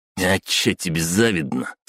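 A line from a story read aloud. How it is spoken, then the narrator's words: Snort. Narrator (Russian): фыркнул Глиста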